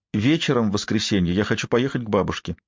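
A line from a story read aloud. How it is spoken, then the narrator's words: Firm, insistent declaration. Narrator (Russian): заявила непререкаемым тоном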